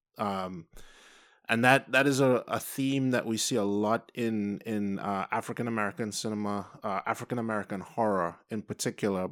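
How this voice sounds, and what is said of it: Trinidadian accent. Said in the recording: “I have an accent, so I'm not from the U.S. I'm from Trinidad and Tobago”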